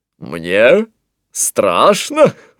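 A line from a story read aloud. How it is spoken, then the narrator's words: Laughing. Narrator (Russian): рассмеялся Антуан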